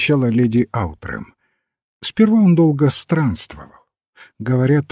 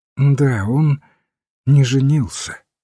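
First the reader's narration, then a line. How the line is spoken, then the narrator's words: Sad woman's voice. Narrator (Russian): печально сказала дама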